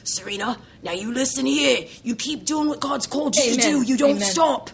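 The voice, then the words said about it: Hearty Australian-accented voice impression. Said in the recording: “he's just got this hearty Australian accent. And I could hear him”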